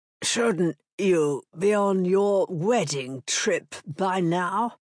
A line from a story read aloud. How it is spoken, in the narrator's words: Peter Trafford, Earl of Blackwell, had never known his voice to croak more than it did with that statement